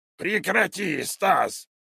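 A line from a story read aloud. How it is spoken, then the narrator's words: Growl. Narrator (Russian): прорычало зеленое тело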